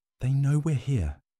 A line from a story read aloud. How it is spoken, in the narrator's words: whispered